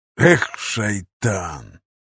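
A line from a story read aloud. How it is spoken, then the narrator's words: Exhaled. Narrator (Russian): выдохнул Умар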